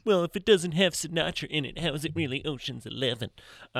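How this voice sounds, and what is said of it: Imitates another person's voice. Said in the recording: “That's a really good Dan impression.”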